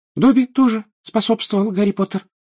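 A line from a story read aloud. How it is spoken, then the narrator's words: Indignant squeak. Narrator (Russian): пропищал он, возмущенно поглядывая на Кикимера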